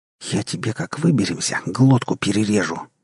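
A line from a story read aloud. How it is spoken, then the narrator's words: Hissing. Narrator (Russian): зашипела Эн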